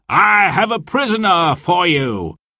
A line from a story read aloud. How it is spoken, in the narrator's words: cried the sheriff